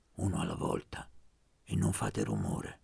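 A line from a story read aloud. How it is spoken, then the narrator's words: Low voice. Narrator (Italian): disse a voce bassa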